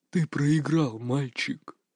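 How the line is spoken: Whisper. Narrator (Russian): прошептал Варкшад, обдавая могильным дыханием

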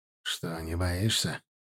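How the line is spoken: Snorting. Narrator (Russian): хмыкнул он

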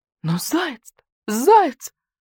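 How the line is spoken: Howled. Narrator (Russian): взвыл койот-йот

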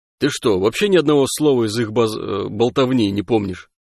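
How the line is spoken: Uncertain, hesitant. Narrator (Russian): Тахосянин задумался, потом неуверенно произнес

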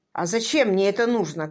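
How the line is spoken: Rough, rude. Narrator (Russian): грубо проговорил Джеффри

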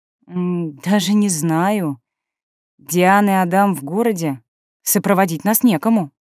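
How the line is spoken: Uncertain drawl. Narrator (Russian): я неуверенно протянула

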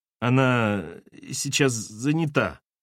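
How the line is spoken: Uncertain. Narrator (Russian): неуверенно произнесла Раиса

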